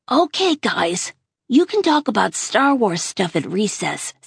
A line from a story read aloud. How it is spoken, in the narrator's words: said Miss Petosa cheerfully